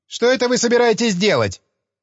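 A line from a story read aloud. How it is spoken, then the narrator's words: Angry question. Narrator (Russian): сердито спросил боксер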